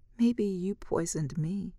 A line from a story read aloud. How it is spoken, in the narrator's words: she laughs weakly